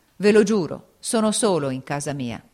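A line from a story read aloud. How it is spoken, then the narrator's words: Exclaimed. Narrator (Italian): esclamò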